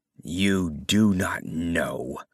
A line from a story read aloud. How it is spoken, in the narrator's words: she said in a low and bitter voice